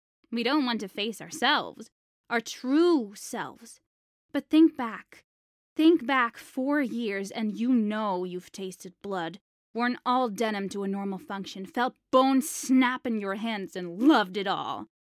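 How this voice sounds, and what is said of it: American accent. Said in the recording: “that's an American accent I can hear”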